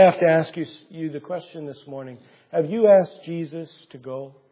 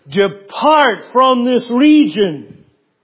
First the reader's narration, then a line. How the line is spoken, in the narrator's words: they began to plead with Him